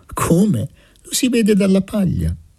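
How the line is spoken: Girl answering, laughing. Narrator (Italian): La ragazza rispose ridendo

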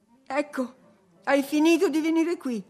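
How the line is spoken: Shouted. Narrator (Italian): gridò Catherine

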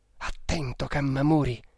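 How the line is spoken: Murmured. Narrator (Italian): mormorò

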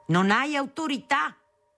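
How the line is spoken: Shouting. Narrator (Italian): urlava

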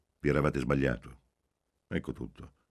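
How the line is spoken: Curt. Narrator (Italian): disse seccamente

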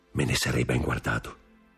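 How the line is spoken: Low voice. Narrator (Italian): soggiunse a bassa voce Danglars

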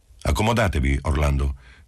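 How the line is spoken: Official tone. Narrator (Italian): disse Marcello in tono ufficiale

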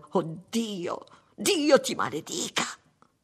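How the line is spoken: Man shrieking. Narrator (Italian): strillò lui

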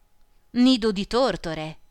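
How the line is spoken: Doctor exclaiming. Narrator (Italian): esclamò il dottore

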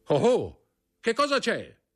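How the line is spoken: Brigadier shouting. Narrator (Italian): gridò il brigadiere

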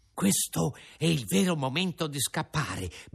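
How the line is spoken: Whispered. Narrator (Italian): bisbigliò

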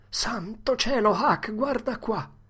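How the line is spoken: Exclaimed. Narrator (Italian): esclamò

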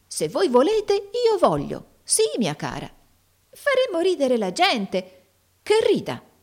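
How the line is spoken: Lively exclamation. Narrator (Italian): esclamò Tim vivamente

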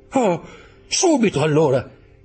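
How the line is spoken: Young man exclaiming. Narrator (Italian): esclamò il giovane

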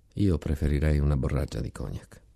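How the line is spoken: Quiet comment. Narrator (Italian): Uno commentò a bassa voce

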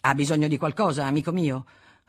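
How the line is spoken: Brusque tone. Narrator (Italian): con tono brusco

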